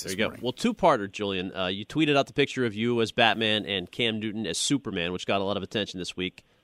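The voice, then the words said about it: Rich, polished radio-announcer voice. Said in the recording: “the guy with a great radio voice ... great radio voice”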